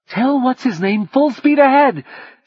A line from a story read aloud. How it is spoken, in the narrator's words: she screamed